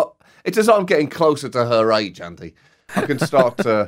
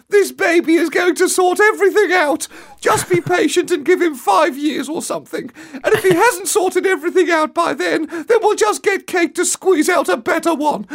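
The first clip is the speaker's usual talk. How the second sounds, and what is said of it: Impression of the Queen. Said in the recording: “I think your Queen impression's getting better year on year”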